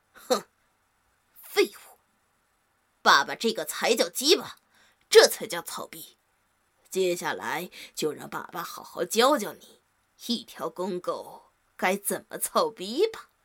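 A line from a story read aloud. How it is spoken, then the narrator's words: Low contemptuous voice. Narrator (Chinese): 用一个近乎男人一样低沉的声音不屑地说道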